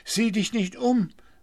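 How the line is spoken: Fearful call. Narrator (German): rief Blauäuglein ängstlich

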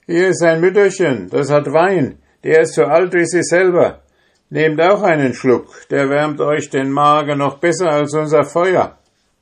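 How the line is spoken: Calling out to others. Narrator (German): rief einer denen zu, die in dem Stall saßen

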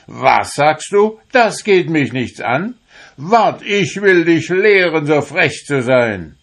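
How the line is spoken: Furious shout. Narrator (German): wurde der Herr erst blitzböse und schrie

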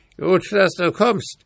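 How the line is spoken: Screaming raven. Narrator (German): schrie der Rabe

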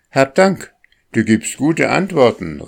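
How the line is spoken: Boy calling out. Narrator (German): rief der Junge

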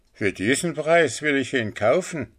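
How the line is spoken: Old man's nasty exclamation. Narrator (German): Ein alter Mann mit einem bösen Gesicht rief aus

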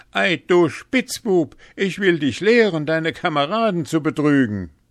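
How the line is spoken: Calling out. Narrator (German): rief

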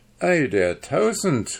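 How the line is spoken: Called out. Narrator (German): rief Nase

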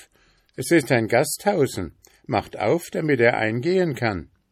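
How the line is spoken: Calling out. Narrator (German): rief

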